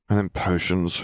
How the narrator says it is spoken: Harry grumbled

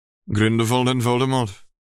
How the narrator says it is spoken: James chuckled

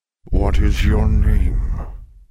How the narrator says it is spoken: the beast asked in a deep, surprisingly pleasant voice

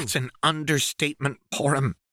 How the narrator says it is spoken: he snapped

